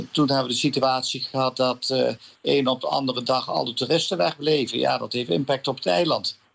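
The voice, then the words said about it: Slight southern Dutch accent. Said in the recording (Dutch): “heb je iets van een beetje Zuiders accent ... Nijmegen”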